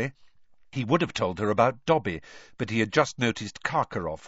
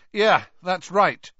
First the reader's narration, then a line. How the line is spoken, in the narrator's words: said Harry, raising his voice slightly, so that Karkaroff could hear him